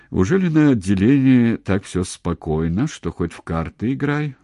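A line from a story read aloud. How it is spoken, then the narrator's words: Dry question. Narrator (Russian): спросил он сухо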